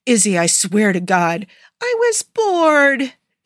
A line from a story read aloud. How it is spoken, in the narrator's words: Izzy whined